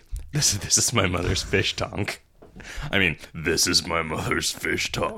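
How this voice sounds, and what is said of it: Gruff little voice, British-sounding accent. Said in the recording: “He's just talking a gruff little voice... To me, that just sounded like a really excellent British accent.”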